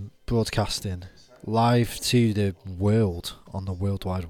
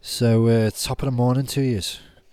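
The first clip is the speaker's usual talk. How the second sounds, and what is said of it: Weak put-on Irish accent. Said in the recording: “That was a very lame Irish accent”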